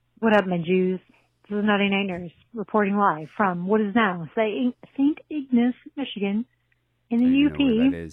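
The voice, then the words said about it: Put-on British accent. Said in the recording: “Don't know why I did a British accent”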